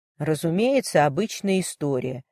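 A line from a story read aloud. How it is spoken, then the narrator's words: Sigh to himself. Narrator (Russian): вздохнул он про себя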